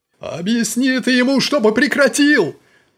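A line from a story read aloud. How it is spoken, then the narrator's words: Yelled. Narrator (Russian): Орал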